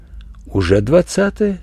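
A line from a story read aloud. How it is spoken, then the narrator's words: Quiet reply. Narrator (Russian): тихо ответила Верочка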